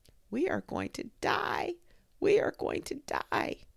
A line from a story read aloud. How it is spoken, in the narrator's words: the leaves all over the forest moaning to each other